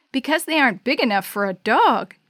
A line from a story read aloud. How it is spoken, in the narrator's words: Jake said, chuckling at his own joke